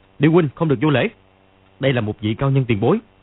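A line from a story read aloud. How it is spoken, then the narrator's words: Shout. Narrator (Vietnamese): Dương Quá quát lên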